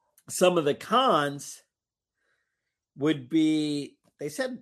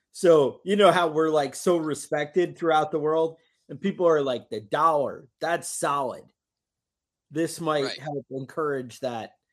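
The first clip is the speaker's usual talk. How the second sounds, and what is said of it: Sarcastic delivery. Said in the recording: “that was sarcasm”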